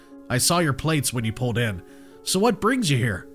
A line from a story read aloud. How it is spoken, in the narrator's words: My mom laughed